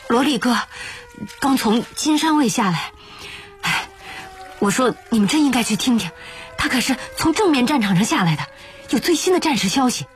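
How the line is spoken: Panting, out of breath. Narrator (Chinese): 杭汉一边喘气一边说

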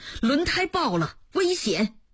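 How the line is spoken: Startled shout from dream. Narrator (Chinese): 朱增科在梦中被惊醒，大喊了一声

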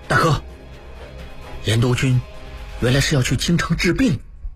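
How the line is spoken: Low voice. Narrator (Chinese): 应文低声道

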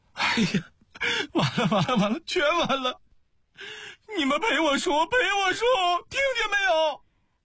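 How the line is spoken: Frantic shouting. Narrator (Chinese): 他跺着脚大嚷

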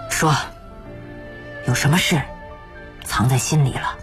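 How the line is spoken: Dark, gloomy voice. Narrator (Chinese): 嘉禾声音就阴沉了下来

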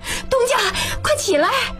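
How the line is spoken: Shouting from outside. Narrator (Chinese): 喜凤在外面喊

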